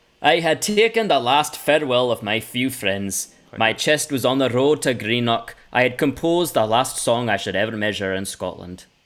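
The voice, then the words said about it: Put-on Scottish accent. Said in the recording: “I'll do it in a Scottish accent.”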